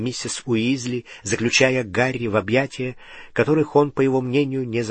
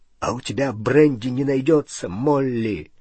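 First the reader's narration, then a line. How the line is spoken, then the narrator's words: Trembling voice. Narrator (Russian): спросил дрогнувшим голосом Хагрид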